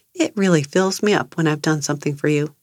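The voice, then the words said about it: Gentle, loving tone. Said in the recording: “Notice the tone of my voice. It's gentle, it's loving”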